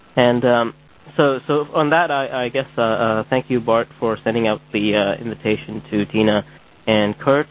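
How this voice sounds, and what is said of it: Strained, fading voice. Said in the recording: “I'm sort of losing my voice.”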